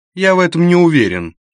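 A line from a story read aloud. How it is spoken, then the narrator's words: Curt reply. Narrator (Russian): не очень любезно ответил кондуктор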